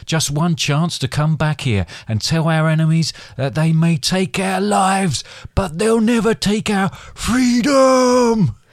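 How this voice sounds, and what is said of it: Mild put-on Scottish accent. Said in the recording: “Accent ... was that Scottish? ... I'm frightened of going full on”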